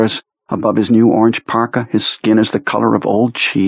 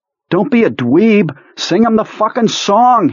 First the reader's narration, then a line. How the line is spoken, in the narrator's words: Henry shouts